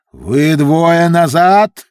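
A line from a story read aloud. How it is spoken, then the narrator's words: Roaring. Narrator (Russian): взревел сэр Локомар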